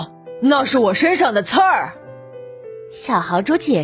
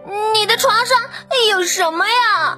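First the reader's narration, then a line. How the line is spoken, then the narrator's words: Shrieking. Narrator (Chinese): 他尖叫起来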